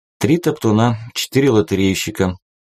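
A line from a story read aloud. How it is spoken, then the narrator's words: Continuing news report. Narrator (Russian): продолжил сообщать новости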